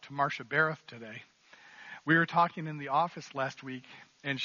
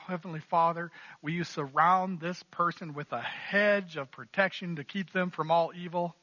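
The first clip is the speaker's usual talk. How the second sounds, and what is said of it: Put-on Southern American accent. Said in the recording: “I have to say that with a southern accent”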